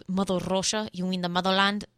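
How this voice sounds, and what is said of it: Put-on Russian accent. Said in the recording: “I kind of lost the accent there at the end. I don't know what happened. Usually I can get a Russian accent pretty well.”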